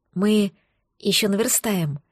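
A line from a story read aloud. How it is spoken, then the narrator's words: Whisper. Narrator (Russian): шепнула Ирсаю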